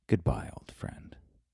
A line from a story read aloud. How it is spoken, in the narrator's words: whispered